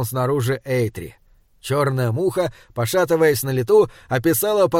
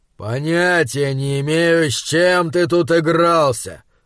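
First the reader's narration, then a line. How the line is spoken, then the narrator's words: Curt, through teeth. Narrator (Russian): процедил Эйтри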